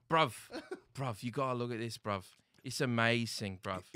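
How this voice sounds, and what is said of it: Put-on Cockney British accent. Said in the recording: “the British one ... Cockney ... Isn't this the worst accent besides Boston?”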